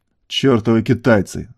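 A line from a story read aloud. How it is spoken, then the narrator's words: Angry growl. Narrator (Russian): зло прорычал генерал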